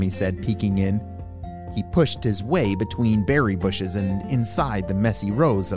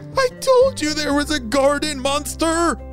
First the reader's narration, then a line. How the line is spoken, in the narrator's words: shrieked Sam